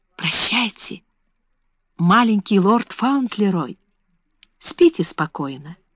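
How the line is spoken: Soft whisper. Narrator (Russian): Она тихо прошептала

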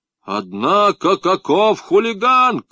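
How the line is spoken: Fat man shouting. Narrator (Russian): крикнул толстяк

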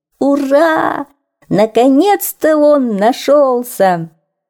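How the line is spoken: Animals shouting together. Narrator (Russian): закричали животные

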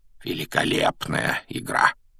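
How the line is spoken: Quiet, private. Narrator (Russian): Негромко, чтобы его мог слышать только Гарри, произнес Дамблдор

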